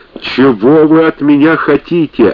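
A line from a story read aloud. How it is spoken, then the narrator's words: Yelling. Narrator (Russian): орал он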